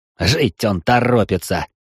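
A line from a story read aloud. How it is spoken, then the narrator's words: Laughing chuckle. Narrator (Russian): хохотнул такому ответу Сарт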